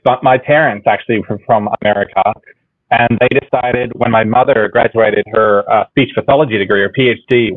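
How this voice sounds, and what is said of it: Australian accent, sometimes shifting. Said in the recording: “my original culture being Australian ... my accent fluctuates”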